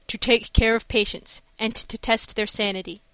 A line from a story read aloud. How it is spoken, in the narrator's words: he replied